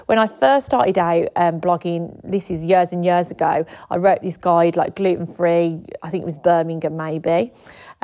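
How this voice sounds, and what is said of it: Birmingham accent. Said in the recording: “If you can't tell from my accent, I am from Birmingham.”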